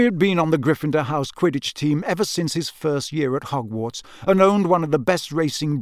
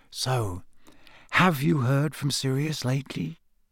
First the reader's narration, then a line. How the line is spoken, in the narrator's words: he said very quietly